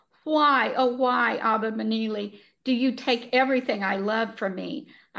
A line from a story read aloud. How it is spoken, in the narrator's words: I wailed with such anguish